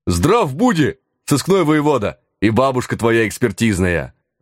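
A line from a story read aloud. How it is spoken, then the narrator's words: Bearded men bellowing in unison. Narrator (Russian): Дружно гаркнули бородачи при виде нас в воротах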